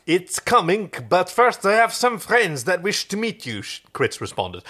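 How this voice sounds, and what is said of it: Exaggerated fake French accent. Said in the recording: “I realized I was doing a pure French accent ... French people don't speak like that at all.”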